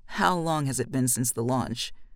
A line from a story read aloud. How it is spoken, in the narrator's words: she says, her voice like gravel